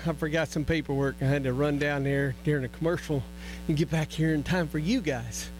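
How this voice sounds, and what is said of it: Out of breath, panting speech. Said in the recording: “Sorry, I'm out of breath.”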